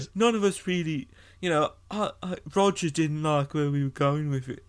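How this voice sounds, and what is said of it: Imitates another person's voice. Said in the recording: “That's very good, by the way. That's a very good Pete impersonation.”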